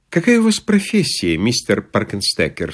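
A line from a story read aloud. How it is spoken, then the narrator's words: Plain. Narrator (Russian): спросила она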